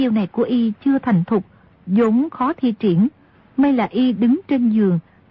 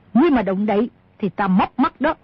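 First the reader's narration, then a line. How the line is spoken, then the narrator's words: Sharp shout. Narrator (Vietnamese): Bà ta quát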